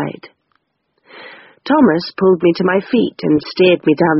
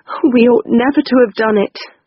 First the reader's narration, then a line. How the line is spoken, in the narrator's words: I sobbed